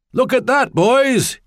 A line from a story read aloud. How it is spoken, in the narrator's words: he shouted